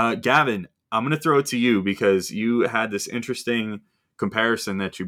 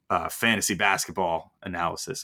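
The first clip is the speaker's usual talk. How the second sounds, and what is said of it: Mock Australian accent. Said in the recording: “Australian ... Apologies to anyone from Australia that I just offended with that accent.”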